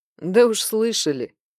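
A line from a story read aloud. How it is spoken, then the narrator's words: Skeptical snort. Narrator (Russian): хмыкнул Джанши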